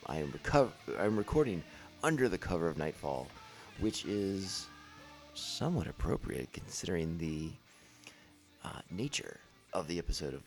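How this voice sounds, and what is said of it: Deliberately lower, deeper speaking voice. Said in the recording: “tone of voice, my lower timbre”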